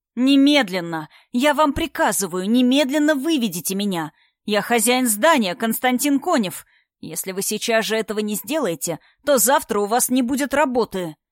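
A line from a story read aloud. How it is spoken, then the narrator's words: Deafening yell. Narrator (Russian): Орал он так, что охранник внизу наверняка оглох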